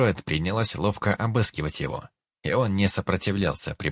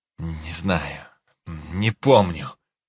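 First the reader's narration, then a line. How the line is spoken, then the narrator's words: Weary groan. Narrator (Russian): простонал Дит, которого все эти бессмысленные расспросы сильно утомили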